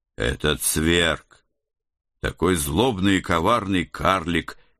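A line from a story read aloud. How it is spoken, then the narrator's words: Stern, instructive reminder. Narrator (Russian): еще раз строго и назидательно напомнил я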